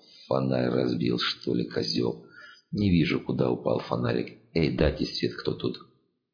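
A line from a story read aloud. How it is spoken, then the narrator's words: Calm. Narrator (Russian): Серж спокойно сказал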